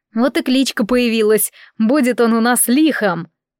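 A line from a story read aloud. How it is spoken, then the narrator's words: Laughing. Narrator (Russian): Лёшка, смеясь, сказал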